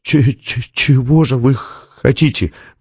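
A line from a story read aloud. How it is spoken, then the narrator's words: Stammered, forced out. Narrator (Russian): выдавил он, заикаясь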